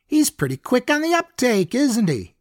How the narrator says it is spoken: Caleb laughed

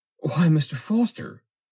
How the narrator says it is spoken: cried the girl

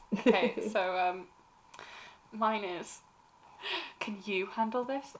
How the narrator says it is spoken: I muttered

